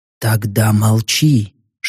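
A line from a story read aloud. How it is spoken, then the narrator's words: Whisper. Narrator (Russian): шепнул я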